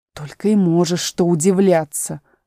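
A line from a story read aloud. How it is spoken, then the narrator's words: Grumbling. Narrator (Russian): проворчала тигровая лилия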